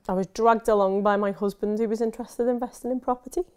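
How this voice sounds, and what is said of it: Liverpool accent. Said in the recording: “From Liverpool. ... People are going to think about that accent there.”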